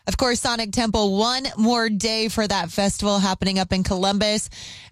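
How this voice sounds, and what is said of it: Rough, worn-out voice. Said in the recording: “I sound awful right now. I've been screaming my face off.”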